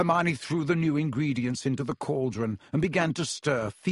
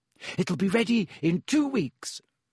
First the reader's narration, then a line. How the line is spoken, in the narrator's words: she said happily